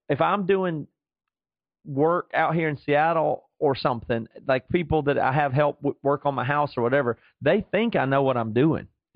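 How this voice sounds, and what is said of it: Southern American accent. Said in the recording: “the Southern thing just exaggerates everything ... when you have the accent”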